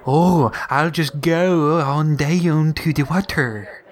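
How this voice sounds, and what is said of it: Mock Baltimore accent. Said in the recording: “don't even get me started on their stupid accent.”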